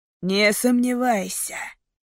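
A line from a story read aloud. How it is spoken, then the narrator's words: Growled. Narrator (Russian): прорычал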